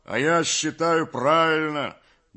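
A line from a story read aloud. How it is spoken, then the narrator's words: Deep bass voice. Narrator (Russian): басил Кондрат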